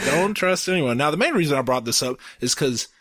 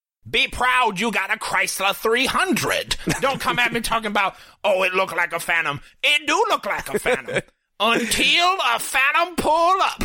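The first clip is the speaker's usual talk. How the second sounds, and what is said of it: Imitates another person's voice. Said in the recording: “I have a Cat Williams impression ... It's a perfect impression ... That's a pretty good Cat Williams”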